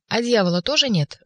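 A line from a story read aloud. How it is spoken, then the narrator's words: Sudden cheerful question. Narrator (Russian): вдруг весело осведомился больной у Ивана Николаевича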